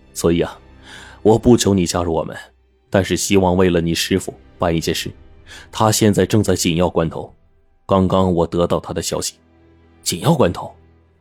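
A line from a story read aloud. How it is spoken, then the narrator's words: Calm, smiling. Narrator (Chinese): 徐子良……依旧平和的笑道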